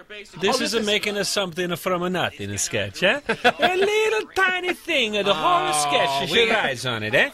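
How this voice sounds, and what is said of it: Exaggerated Italian accent. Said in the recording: “Mark McKinney's offensive Italian accent ... Italians do be talking like that”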